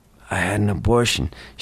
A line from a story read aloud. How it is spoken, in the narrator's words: whispered in tears